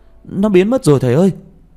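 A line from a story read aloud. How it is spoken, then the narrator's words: Loud shout. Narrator (Vietnamese): Tôi hét to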